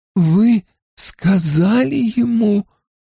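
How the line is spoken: Strained, forced out. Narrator (Russian): выдавила из себя Тина

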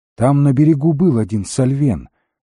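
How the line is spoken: Plain. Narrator (Russian): сказала Неэлит

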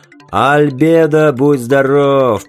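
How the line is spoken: Muffled distant shout. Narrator (Russian): прокричал откуда-то из-под пластикового покрытия бомбардир

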